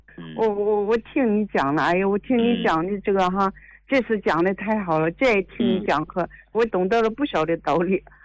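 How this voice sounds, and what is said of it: Yantai regional Chinese accent. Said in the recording (Chinese): “我听你这口音，你是烟台的还是大连的？ ... 这烟台和大连的口音差不多”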